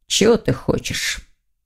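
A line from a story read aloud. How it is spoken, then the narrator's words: Gloomy question, young man. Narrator (Russian): мрачно осведомился молодой человек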